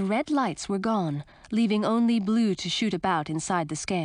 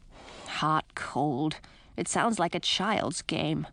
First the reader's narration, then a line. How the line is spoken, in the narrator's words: grumbled Edric